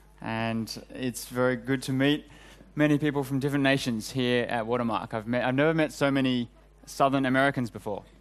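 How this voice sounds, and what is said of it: Australian accent. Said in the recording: “I'm Australian, as you can hear by my accent.”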